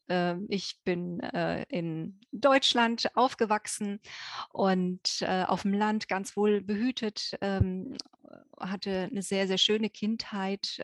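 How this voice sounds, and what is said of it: Noticeable accent in German. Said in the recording (German): “ihr hört es ja an meinem Akzent.”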